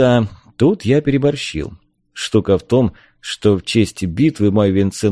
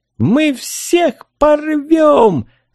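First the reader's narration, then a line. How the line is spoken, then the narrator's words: Shrieked. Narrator (Russian): завизжала Трень-брень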